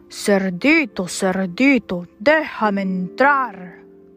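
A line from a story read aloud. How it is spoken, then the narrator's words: Growling. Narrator (Spanish): gruñó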